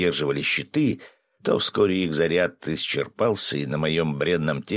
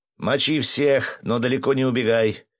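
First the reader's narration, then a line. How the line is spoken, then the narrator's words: Relieved yell. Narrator (Russian): с облегчением заорал я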